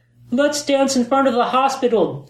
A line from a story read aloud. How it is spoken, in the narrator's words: Jen called out